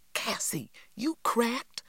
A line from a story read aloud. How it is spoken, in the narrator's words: cried Stacy